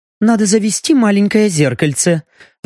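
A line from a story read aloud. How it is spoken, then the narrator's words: Frustrated sigh. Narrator (Russian): вздохнула эльфийка после безуспешной попытки рассмотреть отражение шеи в клинке ножа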